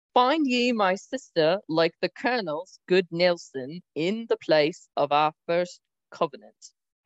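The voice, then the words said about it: Put-on accent that drifts. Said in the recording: “I don't really know what happened to my accent in that one”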